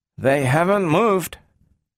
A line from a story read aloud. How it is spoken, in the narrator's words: Donovan said uneasily